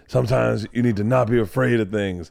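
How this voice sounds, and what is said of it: Imitates another person's voice. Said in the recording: “doing a David Goggins impression.”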